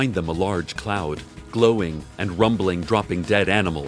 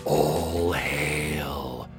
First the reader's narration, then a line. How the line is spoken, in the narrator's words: A few of the dragons are whispering upon seeing the cloud approach